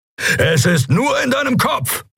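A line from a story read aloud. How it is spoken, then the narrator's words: Calling out. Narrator (German): rief er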